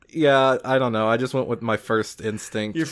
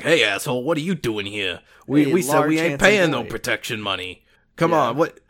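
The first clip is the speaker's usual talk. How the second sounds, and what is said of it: Yakuza gangster character voice. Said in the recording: “This is the voice that you're using for a character ... Your first Yakuza character voice.”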